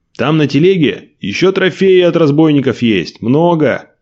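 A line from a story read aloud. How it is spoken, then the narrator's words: Shouted after someone. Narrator (Russian): крикнул ему вдогонку Николай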